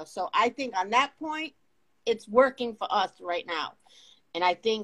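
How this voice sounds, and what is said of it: Boston-area accent. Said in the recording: “you got that Boston accent”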